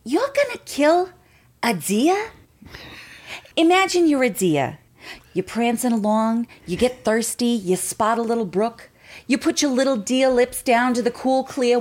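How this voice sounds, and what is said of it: Marisa Tomei impression. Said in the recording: “your impersonation of ... Marissa Tomei? ... She does a killer Marissa Tomei”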